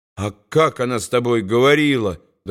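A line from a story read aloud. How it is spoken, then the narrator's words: Trembling but unafraid question. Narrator (Russian): дрожащим голосом, но уже без страха спросил Билли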